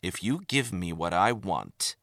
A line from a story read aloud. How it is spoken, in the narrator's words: began evenly, disguising his frustration